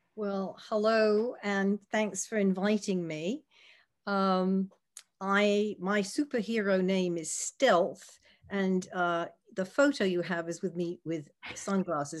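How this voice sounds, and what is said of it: Mixed British and American accent. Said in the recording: “I have a funny accent because it's half UK, half US.”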